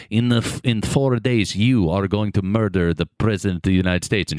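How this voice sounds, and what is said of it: Yakov Smirnoff-style Russian accent impression. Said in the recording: “your Yakov Smirnoff impression ... I did go Russian.”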